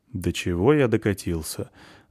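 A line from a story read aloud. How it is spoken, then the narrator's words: Gloomy gentleman. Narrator (Russian): мрачно комментирует пан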